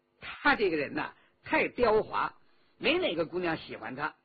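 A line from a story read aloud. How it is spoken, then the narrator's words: Laughing. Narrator (Chinese): 周启笑道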